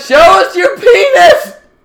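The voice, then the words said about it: Yelling. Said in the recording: “We need to stop yelling.”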